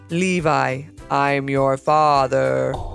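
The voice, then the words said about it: Darth Vader impression. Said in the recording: “trying to do a Darth Vader impression”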